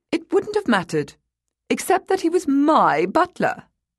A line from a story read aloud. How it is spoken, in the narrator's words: snapped